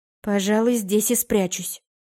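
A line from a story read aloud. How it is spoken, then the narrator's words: Muttered. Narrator (Russian): пробормотала я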